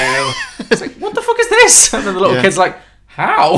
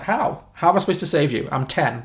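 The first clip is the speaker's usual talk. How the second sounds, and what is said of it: Deadpan delivery. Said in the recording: “deadpan”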